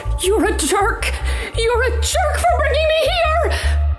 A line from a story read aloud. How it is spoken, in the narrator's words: I yelled